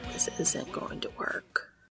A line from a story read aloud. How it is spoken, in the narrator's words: Cass whispers